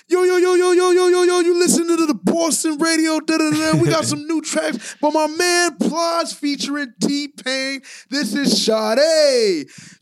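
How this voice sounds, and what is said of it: Attempted Boston radio DJ voice. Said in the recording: “I'm trying to do his voice ... I may not be the Boston accent I'm going for”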